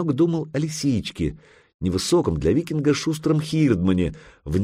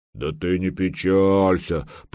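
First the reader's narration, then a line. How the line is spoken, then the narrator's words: Deep bass voice. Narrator (Russian): пробасил Лапа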